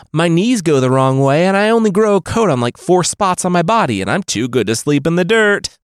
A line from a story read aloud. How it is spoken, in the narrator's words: Rabbit Boy called out